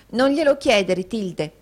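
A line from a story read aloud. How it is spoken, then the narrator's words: Exclaimed. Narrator (Italian): esclamò la signorina Squeers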